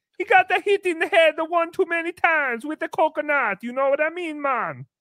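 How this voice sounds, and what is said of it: Put-on Jamaican accent. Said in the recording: “my Jamaican accent”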